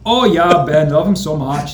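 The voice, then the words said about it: Iowan accent. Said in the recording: “There's that Iowan accent.”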